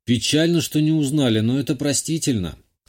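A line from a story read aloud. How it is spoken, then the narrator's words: Snort. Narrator (Russian): хмыкнул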